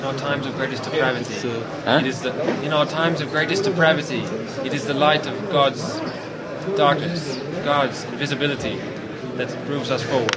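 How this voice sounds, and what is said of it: Poor attempt at British accent. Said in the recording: “It's a very poor attempt at a British accent of some sort. I suspect Irish, but I'm not certain. ... It sounded like you were trying to imitate a sort of British accent.”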